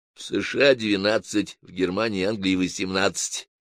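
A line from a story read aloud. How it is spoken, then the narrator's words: Quiet informing. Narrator (Russian): тихо дал справку Бенедикт Мерхов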